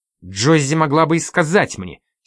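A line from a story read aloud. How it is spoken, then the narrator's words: Angry exclamation. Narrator (Russian): сердито воскликнула Одри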